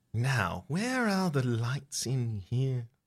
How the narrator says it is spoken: Barbara mumbles to herself

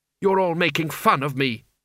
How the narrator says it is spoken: snapped Kaylee

